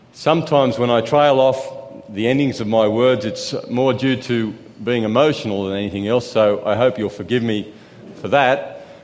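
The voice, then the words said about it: Noticeable accent. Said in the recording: “some of you are having trouble with my accent. I didn't know I had an accent”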